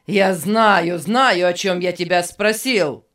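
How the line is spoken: Angry shouting. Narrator (Russian): сердито кричал Беннет

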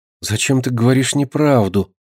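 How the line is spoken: Whisper. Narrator (Russian): прошептала она наконец

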